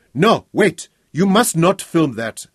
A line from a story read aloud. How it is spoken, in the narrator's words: shouting